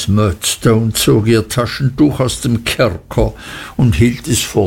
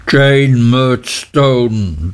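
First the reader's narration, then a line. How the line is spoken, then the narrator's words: Thundering. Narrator (German): donnerte Mr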